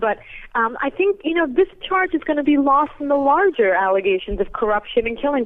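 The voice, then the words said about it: Voice affected by a cold. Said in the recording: “I have a cold, actually, so I probably don't even sound like myself”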